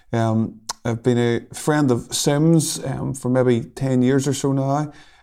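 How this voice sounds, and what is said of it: Northern Irish accent. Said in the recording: “I come from Northern Ireland, if the accent hasn't betrayed me already.”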